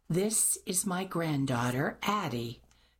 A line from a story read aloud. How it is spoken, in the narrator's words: Mimi replied, lips pressed tightly to her teeth